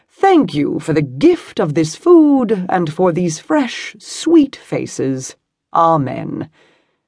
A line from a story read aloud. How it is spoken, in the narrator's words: Chauncey said in a ringing voice